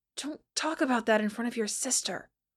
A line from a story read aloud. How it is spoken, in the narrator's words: Peter hissed